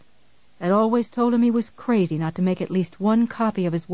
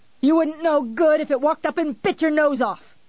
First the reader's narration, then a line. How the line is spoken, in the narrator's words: he yelled, not caring